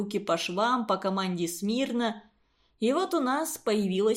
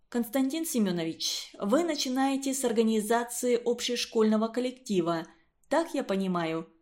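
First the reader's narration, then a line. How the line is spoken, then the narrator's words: Plain question. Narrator (Russian): спросила Катя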